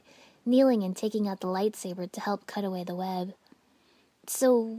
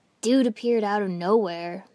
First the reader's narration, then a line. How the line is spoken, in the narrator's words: Kiba said gruffly